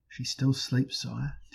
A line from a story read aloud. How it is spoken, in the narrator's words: Tanglebones murmured